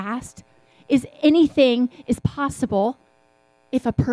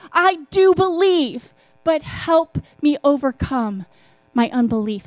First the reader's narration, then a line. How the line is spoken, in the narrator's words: The father instantly cried out